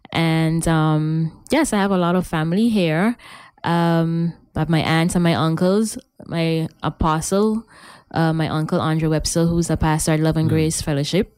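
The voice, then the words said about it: Strong local accent. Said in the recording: “The raw accent, eh?”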